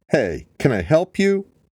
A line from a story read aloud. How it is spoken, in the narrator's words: Beth shouted toward the woman